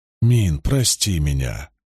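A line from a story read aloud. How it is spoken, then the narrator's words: Tender speech. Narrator (Russian): ласково сказал он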